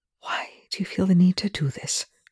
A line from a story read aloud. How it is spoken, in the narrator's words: Rush whispered